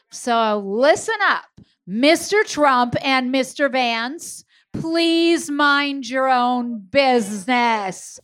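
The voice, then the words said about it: Stern teacher voice. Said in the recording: “I'm going to use my teacher voice”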